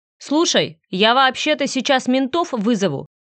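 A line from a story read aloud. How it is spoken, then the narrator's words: Barked. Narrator (Russian): рявкнул я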